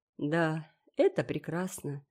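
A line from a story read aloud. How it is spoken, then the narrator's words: Calm. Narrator (Russian): сказал Гилберт, спокойно глядя вниз на взволнованное лицо Энн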